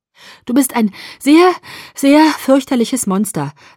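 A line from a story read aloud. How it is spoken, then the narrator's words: Breathless. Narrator (German): sagte ich atemlos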